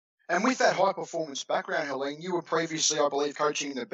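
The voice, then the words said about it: Australian accent. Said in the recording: “probably can tell from my accent, I'm an Aussie.”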